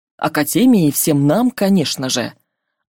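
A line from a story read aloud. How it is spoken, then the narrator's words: Plain. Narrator (Russian): ответил директор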